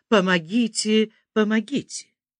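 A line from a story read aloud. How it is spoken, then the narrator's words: Young man screaming, unrecognizable voice. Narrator (Russian): молодой человек начинает вдруг кричать не своим голосом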